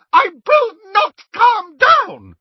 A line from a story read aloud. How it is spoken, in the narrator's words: she screamed